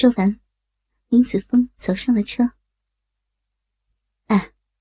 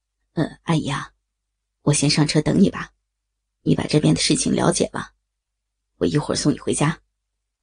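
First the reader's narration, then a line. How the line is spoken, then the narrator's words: Smiling, cheerful. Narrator (Chinese): 笑眯眯的对林子峰说着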